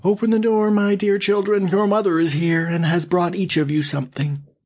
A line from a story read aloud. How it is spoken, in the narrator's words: cried